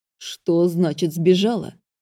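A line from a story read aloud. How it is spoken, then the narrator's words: Growled. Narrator (Russian): рыкнул Джеспер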